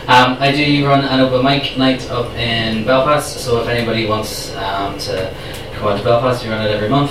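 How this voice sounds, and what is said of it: Northern Irish accent. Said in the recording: “I come from Northern Ireland, so I hope you can understand my accent.”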